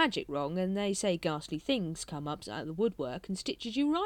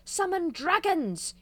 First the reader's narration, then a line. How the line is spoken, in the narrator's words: he shouted